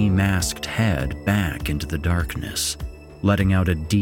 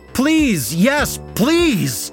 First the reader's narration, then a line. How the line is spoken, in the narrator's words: I screamed